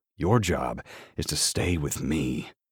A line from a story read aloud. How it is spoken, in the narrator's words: I growl